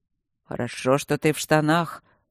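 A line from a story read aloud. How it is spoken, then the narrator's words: Grumbled mutter. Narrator (Russian): пробурчал он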